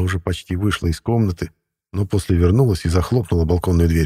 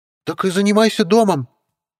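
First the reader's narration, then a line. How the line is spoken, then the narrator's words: Witch barking. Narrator (Russian): Рявкнула ведьма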